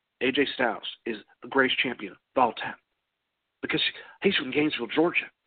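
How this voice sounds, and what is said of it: Imitates another person's voice. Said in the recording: “that sounded more like George Bush than AJ ... That was a bad, bad impersonation.”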